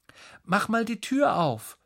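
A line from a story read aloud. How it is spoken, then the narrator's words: Calling. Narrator (German): ruft er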